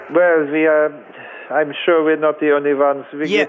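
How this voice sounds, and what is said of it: Put-on vague French-German European accent. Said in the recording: “what sort of accent is that? ... It is an indeterminate accent. ... It sounded French at first. Now it's kind of German. ... Let's call it modern European.”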